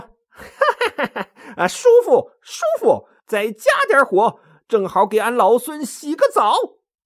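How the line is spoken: Hearty laughing. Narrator (Chinese): 大圣哈哈大笑说

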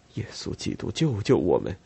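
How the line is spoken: Terrified scream. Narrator (Chinese): 玛莎，她看见那滩血，尖叫起来

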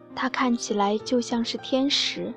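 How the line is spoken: Dejected man murmuring. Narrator (Chinese): 一位失意的男子喃喃自语地说道

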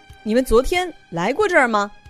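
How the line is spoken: Loud. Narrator (Chinese): 吉利大声说

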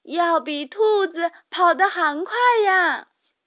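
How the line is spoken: Yelling desperately. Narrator (Chinese): 茉莉 也拼命叫喊

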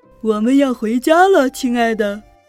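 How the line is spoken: Grandfather calling from afar. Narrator (Chinese): 爷爷的声音从远处传来

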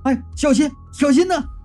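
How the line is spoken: Shouting. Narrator (Chinese): 冯丽和严浩在一旁就叫

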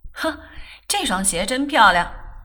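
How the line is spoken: Laughing. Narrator (Chinese): 笑道

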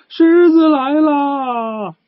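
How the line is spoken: Two voices shouting. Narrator (Chinese): 两个家伙大喊

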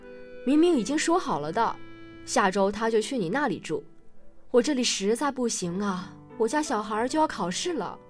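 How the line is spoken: Father speaking loudly on phone. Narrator (Chinese): 那家父亲正在跟自己的大哥通话，大声说着

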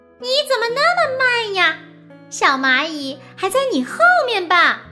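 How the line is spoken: Gleeful shout. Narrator (Chinese): 它开心极了 大声的喊道

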